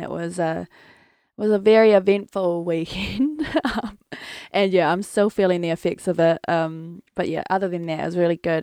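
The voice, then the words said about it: Strained voice that keeps cracking. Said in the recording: “my voice is just not on today... my throat is honestly plain... I keep cracking throughout them”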